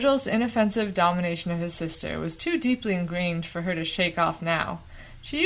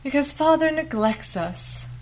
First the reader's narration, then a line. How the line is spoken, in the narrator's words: Lanya piped emphatically, as though she had been practicing that statement for a long time